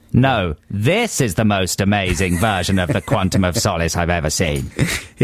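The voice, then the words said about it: Imitates Simon Cowell's voice. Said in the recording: “your Simon Cowell impression”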